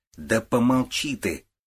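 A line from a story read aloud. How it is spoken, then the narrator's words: Irritated interruption. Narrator (Russian): раздраженно перебил отца Женя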